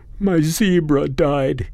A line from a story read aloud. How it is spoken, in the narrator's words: he sobbed